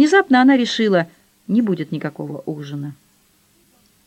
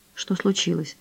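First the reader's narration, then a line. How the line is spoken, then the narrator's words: Whispered question. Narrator (Russian): шепотом спросил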